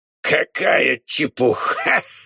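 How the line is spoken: Contemptuous snort. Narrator (Russian): хмыкнул презрительно Омар Юсуф

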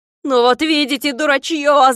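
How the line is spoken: Shouting. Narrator (Russian): закричал Клопс

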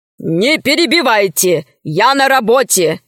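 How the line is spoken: Stern. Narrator (Russian): строго сказал Милодар

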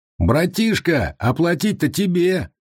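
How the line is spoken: Singer shouting. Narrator (Russian): крикнул солист

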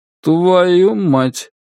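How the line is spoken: Slow expressionless voice. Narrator (Russian): медленно, без всякого выражения, говорит Монгберг

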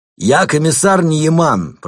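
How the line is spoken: Shouting over roaring fire. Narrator (Russian): прокричал полицейский, стараясь перекрыть гул пламени

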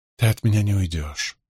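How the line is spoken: Whisper. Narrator (Russian): прошептала она

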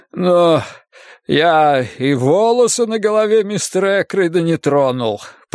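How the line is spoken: Moaning. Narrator (Russian): простонал он

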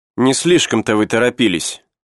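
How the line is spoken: Cold. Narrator (Russian): холодно сказала девушка

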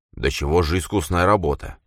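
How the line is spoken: Muttered. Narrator (Russian): пробормотал он

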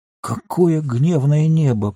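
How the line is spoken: Muttering. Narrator (Russian): пробормотал хоббит

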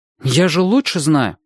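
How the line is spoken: Irritated. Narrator (Russian): сказал он раздраженно

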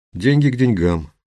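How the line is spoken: Grumbled. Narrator (Russian): буркнул Виктор

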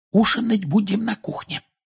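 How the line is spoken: Woman's whisper. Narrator (Russian): прошептала миссис Уизли

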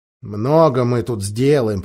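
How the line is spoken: Grumbling. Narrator (Russian): проворчал Эдмунд

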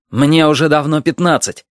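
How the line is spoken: Sharp. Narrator (Russian): резко сказал Арсен

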